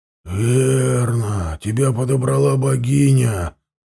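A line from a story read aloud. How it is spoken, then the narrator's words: Grumbling. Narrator (Russian): проворчал тот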